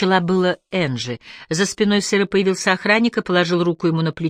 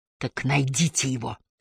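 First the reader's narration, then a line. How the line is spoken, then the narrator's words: Hissed. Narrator (Russian): прошипел сыр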